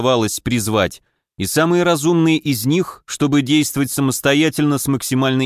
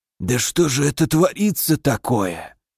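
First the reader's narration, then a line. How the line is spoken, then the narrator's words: Hoarse voice. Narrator (Russian): осипшим голосом произнес наш сопровождающий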